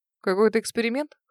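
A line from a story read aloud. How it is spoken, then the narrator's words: Skeptical hum. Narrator (Russian): хмыкнул он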